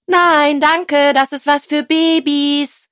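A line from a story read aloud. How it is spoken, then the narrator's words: Calling back. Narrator (German): rief Tilda zurück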